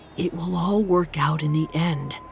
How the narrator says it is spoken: Artni muttered, trying to remind himself that this sort of optimism was part of being an Icelander

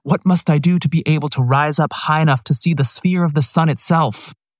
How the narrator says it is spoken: exclaimed

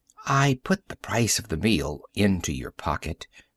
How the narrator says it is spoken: she whispered conspiratorially

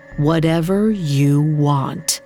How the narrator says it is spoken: slowly said

